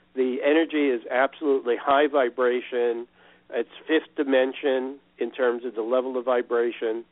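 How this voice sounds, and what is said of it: Excited, energetic voice. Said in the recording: “as you can tell from my voice, I'm very excited”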